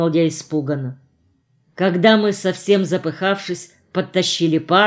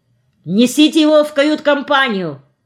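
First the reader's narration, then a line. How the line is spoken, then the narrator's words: Shouted. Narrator (Russian): крикнул нам капитан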